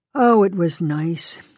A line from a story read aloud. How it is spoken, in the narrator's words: he said sadly